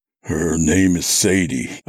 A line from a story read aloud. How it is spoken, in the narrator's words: I said thickly, my mouth feeling like it was stuffed with cotton